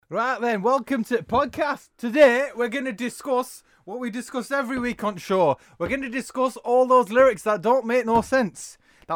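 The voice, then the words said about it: Put-on Yorkshire-ish generic British accent. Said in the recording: “That was a mix between like a Yorkshire slash generic accent.”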